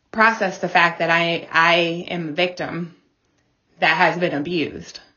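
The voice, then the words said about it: Quivering, emotional voice. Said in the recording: “hear the quiver in my voice”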